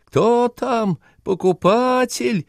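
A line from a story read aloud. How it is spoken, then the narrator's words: Squeaky female voice. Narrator (Russian): пропищал женский голос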